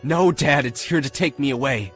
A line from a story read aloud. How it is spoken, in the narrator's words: I screamed